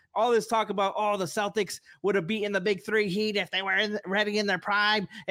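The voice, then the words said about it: Old-timey radio host Boston accent. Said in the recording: “talking like an old-timey radio host? ... This is my Boston impression.”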